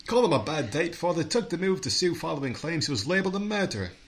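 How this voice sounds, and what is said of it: Exaggerated silly put-on accent. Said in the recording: “Your accent changes? ... Because you're doing a stupid accent.”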